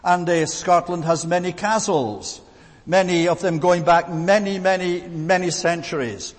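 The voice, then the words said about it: Scottish accent. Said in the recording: “by my accent, I'm from the land of Scotland”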